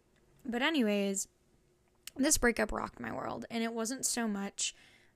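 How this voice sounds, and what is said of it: Hoarse voice. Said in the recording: “My throat's a little hoarse today.”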